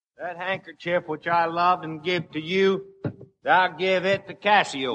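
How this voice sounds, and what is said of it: Broad Texas accent. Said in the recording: “a broad Texas accent”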